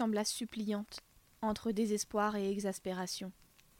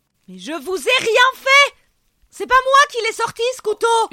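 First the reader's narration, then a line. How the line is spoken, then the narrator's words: Furious yelling. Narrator (French): hurla-t-il soudain hors de lui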